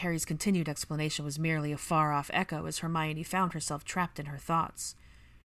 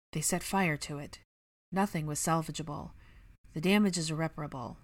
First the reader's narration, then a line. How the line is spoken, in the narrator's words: he said quietly